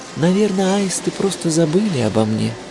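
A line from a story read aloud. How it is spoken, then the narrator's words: Sighing. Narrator (Russian): вздохнула она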